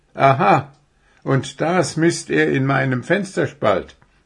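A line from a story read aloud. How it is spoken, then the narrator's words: Skeptical laugh. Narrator (German): lachte Puh, der dem Reh die Geschichte nicht abnahm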